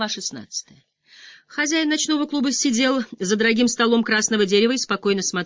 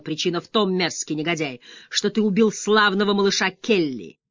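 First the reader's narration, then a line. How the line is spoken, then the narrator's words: Growled. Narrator (Russian): прорычал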